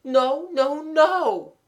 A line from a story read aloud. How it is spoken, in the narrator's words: moaned Mabel invisibly